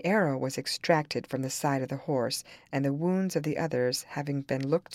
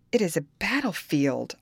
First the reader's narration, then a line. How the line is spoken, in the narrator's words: exclaim